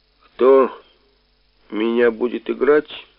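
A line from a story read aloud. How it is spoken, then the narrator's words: Menacing question. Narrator (Russian): спросил я грозно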